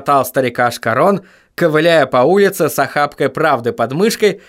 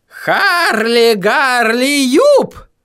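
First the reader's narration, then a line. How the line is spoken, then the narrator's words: Howling. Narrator (Russian): взвыл он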